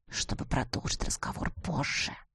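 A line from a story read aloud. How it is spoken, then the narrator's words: Whispered. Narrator (Russian): шепнул он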